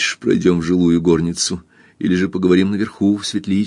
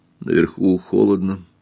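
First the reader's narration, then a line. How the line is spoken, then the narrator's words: Quiet. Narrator (Russian): тихо сказал Эрлин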